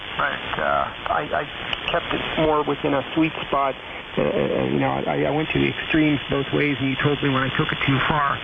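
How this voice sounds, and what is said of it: Hoarse, worn-out voice. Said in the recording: “losing my voice, by the way, all these hours of talking”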